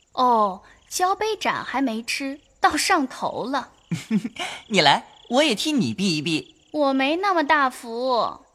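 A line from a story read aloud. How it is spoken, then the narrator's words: Sneering. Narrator (Chinese): 晴雯 冷笑道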